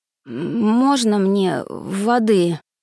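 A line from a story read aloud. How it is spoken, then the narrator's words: Hoarse, raspy voice. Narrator (Russian): Голос вышел осипшим с хрипотцой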